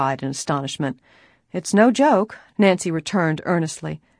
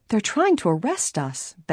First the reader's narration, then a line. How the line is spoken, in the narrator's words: Bess exclaimed